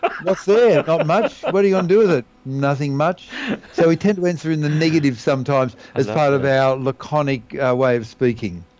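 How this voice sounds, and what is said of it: Australian accent. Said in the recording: “Australians definitely have a very, very distinct style of speaking ... in Australia, we tend to have a fairly universal sort of accent”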